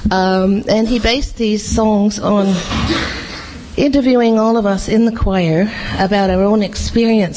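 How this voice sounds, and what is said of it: Australian accent. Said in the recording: “My Australian accent is coming through because I'm nervous.”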